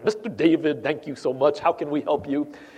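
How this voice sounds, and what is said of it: Polite imitated Indian or Filipino accent. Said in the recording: “somebody on the phone with a foreign accent, and they're very, very polite ... India, or maybe the Philippines ... they always call me ... with a nice accent.”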